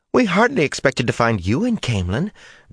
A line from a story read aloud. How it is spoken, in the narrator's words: Jancy Torfin piped up in her high voice